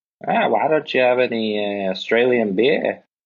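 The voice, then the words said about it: Attempted Australian accent. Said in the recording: “I can't do the accent at all. ... That was good.”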